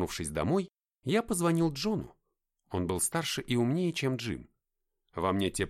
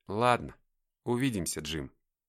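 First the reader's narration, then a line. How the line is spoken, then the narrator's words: Quiet. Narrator (Russian): тихо сказал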